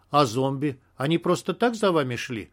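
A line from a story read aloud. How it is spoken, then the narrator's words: Annoying questioning tone. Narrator (Russian): Все таким же противно-вопросительным тоном спросил он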